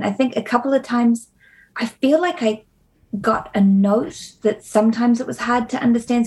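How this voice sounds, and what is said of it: New Zealand accent. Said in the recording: “how does Lassiter know she's a Kiwi? ... your real accent ... Kiwi pronunciation words”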